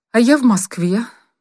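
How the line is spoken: Glum. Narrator (Russian): сообщила она уныло

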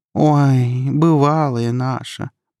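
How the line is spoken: Drawling. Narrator (Russian): протянула Наташа

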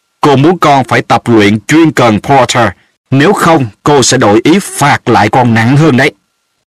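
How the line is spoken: Stern teacher. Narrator (Vietnamese): giáo sư McGonagall nghiêm nghị nói

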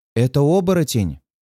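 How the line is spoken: Rapid, panicked blurt. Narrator (Russian): Быстро выпаливает она, явно на грани паники

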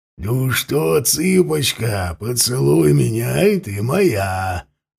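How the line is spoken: Guffawing laughter. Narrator (Russian): Захохотал Бьорн одно ухо

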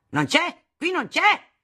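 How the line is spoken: Shouting. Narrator (Italian): gridava

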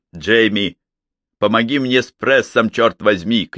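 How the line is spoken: Shout. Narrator (Russian): крикнул Нэттл Смит

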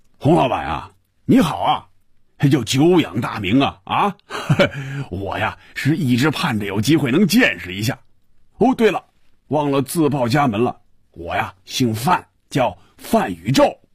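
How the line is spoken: Laughing, muffled booming voice. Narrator (Chinese): 一串笑声，然后是有些瓮声瓮气的声音说

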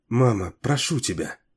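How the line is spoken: Quiet. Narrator (Russian): тихо произнесла Клест

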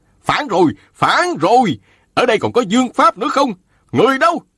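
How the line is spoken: Bleating shriek. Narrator (Vietnamese): y lập tức thét lên be be

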